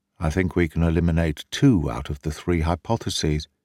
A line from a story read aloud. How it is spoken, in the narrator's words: said quietly to me